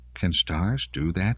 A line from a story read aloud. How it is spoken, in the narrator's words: Melanie asked quietly